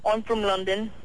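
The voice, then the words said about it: Poor fake British accent. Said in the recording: “This is a fake. This is a fake accent. ... Not even close. ... My American British accent. ... It wasn't very good, but nice try.”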